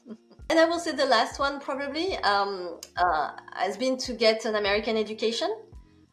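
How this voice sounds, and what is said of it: French accent. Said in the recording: “I cannot get the French out of me ... I cannot get rid of my accent”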